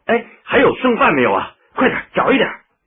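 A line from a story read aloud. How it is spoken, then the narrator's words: Hurried shouting. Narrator (Chinese): 我一进厨房就嚷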